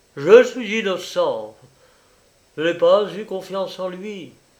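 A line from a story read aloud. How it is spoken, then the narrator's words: Exclaiming. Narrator (French): Jacques Loriot s'écriait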